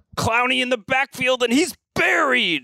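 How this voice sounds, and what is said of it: Play-by-play announcer impression. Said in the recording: “hear my Spiro Dedis impression? ... It's pretty good. It's pretty good. ... all play-by-play people came from, like, a certain planet somewhere”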